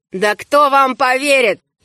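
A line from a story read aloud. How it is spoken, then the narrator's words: Burst of laughter. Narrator (Russian): Его величество не удержался от хохота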